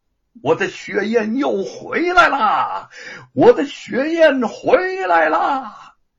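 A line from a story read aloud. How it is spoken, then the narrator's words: Excited, loud, echoing. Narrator (Chinese): 兴奋洪亮的声音在天地间回荡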